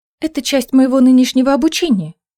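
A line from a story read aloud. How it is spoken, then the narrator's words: Hurried explanation. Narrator (Russian): торопливо пояснила она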